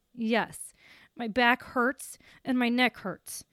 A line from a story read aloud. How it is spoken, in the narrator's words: my voice shook with anger when I replied